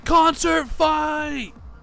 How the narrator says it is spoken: you hear someone yell

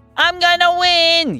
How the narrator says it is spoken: yelled Brinley, very far towards the back of the pack

